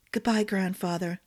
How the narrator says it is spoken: Dylan whispered

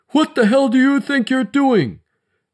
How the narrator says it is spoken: thundered Bishop

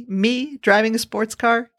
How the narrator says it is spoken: giggled

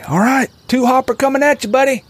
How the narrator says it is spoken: He shouted out to Howie

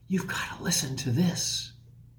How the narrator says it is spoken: said with a whisper

